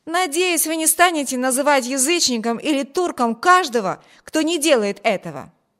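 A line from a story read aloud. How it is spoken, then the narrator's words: Exclaiming. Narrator (Russian): воскликнул Виберт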